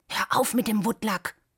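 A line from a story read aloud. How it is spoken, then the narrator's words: Whisper. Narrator (German): flüsterte er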